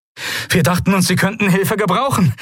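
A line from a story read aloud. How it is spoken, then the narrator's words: Breathless shout. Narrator (German): rief Novus atemlos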